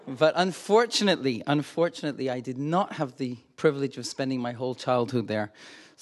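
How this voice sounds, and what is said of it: Diluted Scottish accent, slightly American. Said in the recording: “that accent ... Think single malt whiskey. ... born in Glasgow, Scotland ... my accent got diluted ... a little bit of American as well, which uh, goes with the Scottish R”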